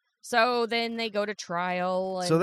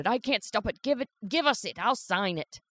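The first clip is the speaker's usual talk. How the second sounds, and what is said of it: Put-on accent, shouted. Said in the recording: “that accent wasn't as good as last time ... But it was okay”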